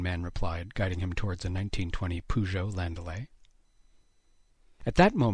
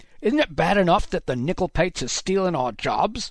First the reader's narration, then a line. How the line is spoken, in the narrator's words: one of the men shouted, spittle spraying Haddox's face